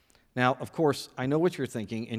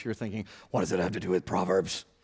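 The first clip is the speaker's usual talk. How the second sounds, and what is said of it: Gravelly Batman-style character voice. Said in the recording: “In your Batman voice”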